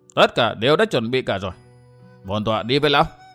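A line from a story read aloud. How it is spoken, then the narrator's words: Harsh stern voice. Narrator (Vietnamese): Thiên Tuế gia Hoặc Khâm gằn giọng nói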